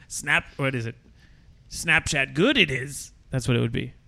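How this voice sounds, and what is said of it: Yoda character voice. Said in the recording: “my Yoda impression”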